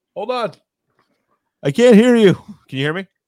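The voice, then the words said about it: Shouting. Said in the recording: “Stop shouting. We can hear you.”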